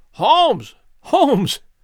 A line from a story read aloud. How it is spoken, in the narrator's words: I cried